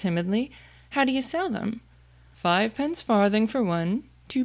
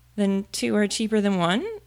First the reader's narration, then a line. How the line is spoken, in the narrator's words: Alice said in a surprised tone